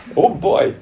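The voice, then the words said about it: Put-on Québécois accent. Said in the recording (French): “Avec son accent québécois.”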